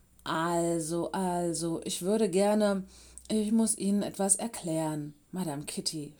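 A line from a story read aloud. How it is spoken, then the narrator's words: Stuttering. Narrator (German): stotterte er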